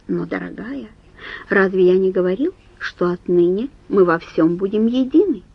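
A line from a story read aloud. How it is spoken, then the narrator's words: Soft-spoken nobleman. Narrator (Russian): граф мягко добавил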